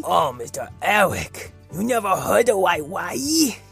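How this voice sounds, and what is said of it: Distinct character voice for dog. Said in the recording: “his voice sounds a little different from mine”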